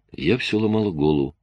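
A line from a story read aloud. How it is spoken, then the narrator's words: Soft. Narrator (Russian): мягко сказала Клэр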